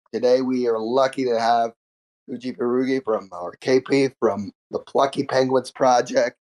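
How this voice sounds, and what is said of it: Voice sounds unwell. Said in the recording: “Sorry about my voice, feeling a little down”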